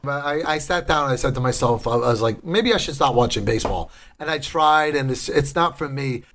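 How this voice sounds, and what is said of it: Strong regional accent. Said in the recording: “about my accent all the time ... She thinks my accent is hilarious ... As strong as my accent is”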